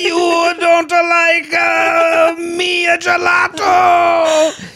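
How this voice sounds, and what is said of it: Angry Italian gelato shop owner voice. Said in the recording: “That was such a great impression of an angry gelato shop owner.”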